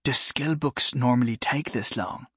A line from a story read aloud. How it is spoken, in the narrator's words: Jory whispered to Farah